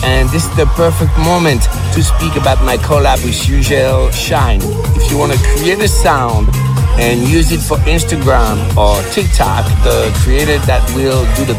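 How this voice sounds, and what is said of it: French-accented English, heavily stressed words. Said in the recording (French): “il a le même accent que les profs d'anglais... ils appuient bien les mots, mais au moins tu le comprends bien... c'est normal qu'il ait un accent”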